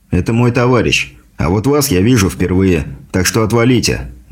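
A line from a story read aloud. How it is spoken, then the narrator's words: Calm. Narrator (Russian): спокойно произнес я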